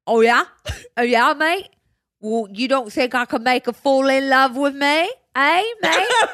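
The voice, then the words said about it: Put-on Cockney accent. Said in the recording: “Accent. ... He's cockney now.”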